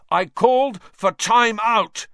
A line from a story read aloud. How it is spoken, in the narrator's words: Wood roared at his team